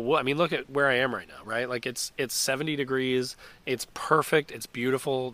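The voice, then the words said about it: Congested voice from a cold. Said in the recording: “probably tell from my voice, I have a cold”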